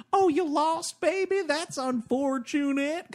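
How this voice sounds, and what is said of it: Terrible imitation of Charlize Theron's accent. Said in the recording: “her accent's just as terrible as what I just did.”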